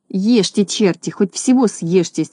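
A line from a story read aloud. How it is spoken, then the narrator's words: Angry mutter. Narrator (Russian): сердито бормотал он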